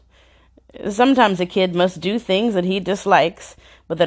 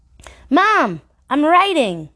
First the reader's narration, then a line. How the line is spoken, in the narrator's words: he exclaimed proudly